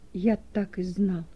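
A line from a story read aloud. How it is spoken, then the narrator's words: Shocked whisper. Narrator (Russian): Хрущев побледнел и прошептал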